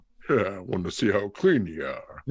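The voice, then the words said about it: Rodney Dangerfield impression. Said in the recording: “Can you do that impression? ... That's pretty good.”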